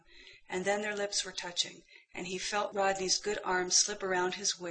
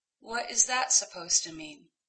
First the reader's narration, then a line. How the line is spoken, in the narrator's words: John sighed